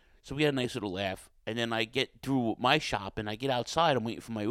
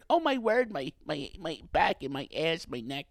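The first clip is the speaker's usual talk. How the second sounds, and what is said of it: Screaming old lady voice. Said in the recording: “she's screaming like ... Sounds like Sal Rosenberg.”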